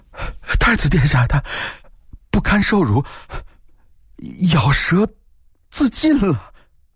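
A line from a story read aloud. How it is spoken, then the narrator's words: Panicked, breathless. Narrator (Chinese): 狱卒慌乱地喘了口气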